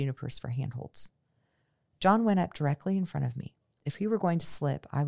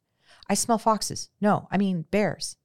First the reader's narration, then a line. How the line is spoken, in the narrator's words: he said